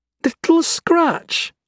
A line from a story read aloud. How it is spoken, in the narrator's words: Oriana exclaimed